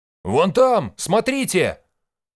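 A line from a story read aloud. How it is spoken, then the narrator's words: Yell. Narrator (Russian): заорал Гоби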